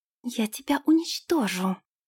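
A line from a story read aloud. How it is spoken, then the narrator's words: Hissed. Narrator (Russian): прошипела принцесса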